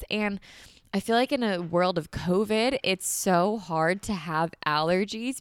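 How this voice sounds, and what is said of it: Congested, stuffy-nosed voice. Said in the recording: “if I sound like a little congested or like I'm coughing a little bit ... So if I sound a little congested right now”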